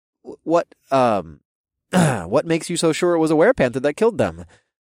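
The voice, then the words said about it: Naive-sounding voice. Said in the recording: “in my best naive voice”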